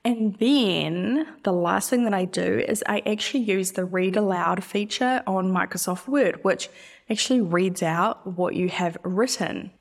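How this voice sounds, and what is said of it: New Zealand accent. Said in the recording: “I'm not Australian, by the way. I'm an, I'm a Kiwi ... I'm a New Zealander. I know that our accents sound similar”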